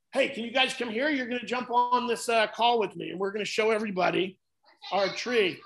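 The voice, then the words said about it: Loud yelling voice. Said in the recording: “I'm yelling again ... do I yell a lot? And they're like, yeah ... you just yell”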